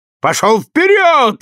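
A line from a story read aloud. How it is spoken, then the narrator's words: Yelling. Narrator (Russian): заорал Франк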